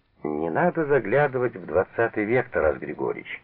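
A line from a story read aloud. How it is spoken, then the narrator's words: Laughing. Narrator (Russian): засмеялся Буткин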